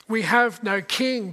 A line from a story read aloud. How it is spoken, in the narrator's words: they cried